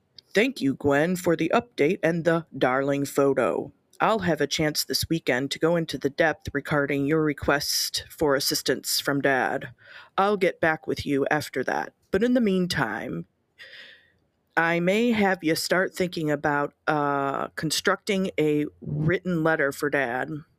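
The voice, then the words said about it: Audiobook-style narrator voice. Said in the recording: “I'm going to try to do a voice like they do on the audiobooks instead of using the voice changer”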